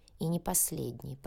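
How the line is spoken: Muttered. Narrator (Russian): пробормотал полковник

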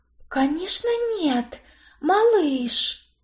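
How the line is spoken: Whisper. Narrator (Russian): Прошептала я

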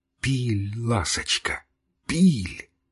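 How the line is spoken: Excited whisper. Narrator (Russian): взволнованным шепотом проговорил

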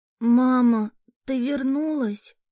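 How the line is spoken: Hoarse sickly child's voice. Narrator (Russian): прохрипел болезненный детский голос

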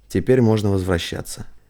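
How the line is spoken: Tired whisper. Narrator (Russian): Мария, уставшая не меньше остальных, прошептала

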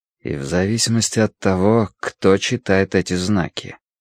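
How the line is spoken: Quiet. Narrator (Russian): тихо произнес Тай

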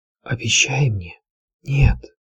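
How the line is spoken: Weak dying whisper. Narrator (Russian): прошептала сестра со своего кровавого ложа

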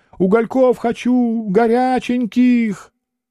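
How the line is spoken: Inhuman howl. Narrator (Russian): Плешивый юродивый задребезжал кочергами, взвыл нечеловеческим голосом

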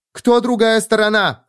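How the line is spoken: Barked. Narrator (Russian): рявкнула Кара

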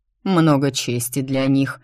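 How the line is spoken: Displeased grumble. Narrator (Russian): недовольно проворчал милорд Швангау

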